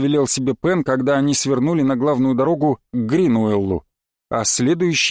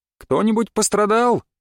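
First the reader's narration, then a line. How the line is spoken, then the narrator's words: Shout. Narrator (Russian): крикнул он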